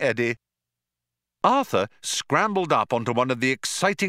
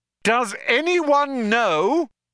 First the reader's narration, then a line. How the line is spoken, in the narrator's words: yelled Trillian